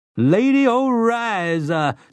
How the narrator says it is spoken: Susanna screamed

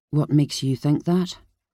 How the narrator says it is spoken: he asked quietly

